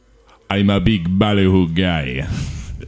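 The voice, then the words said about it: Put-on patois accent impression. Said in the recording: “Can you do your best impression of Chet Hanks? ... using an patois accent.”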